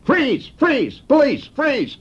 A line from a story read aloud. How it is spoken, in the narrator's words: he hollered